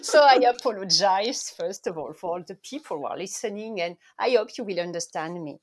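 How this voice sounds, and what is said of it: French accent. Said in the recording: “you notice I'm French. My accent is very French.”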